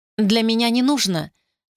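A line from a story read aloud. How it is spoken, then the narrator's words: Slightly trembling voice. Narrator (Russian): чуть вздрагивающим голосом сказала Джулиан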